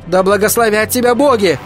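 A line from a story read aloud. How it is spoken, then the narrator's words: Amazed, hopeful shout. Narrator (Russian): прокричала она с изумлением и надеждой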